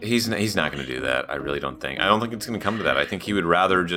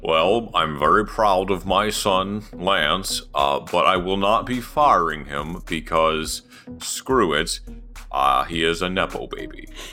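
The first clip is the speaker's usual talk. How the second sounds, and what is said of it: Imitates another person's voice. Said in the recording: “your Lance Stroll impression? I mean, your Lawrence Stroll impression.”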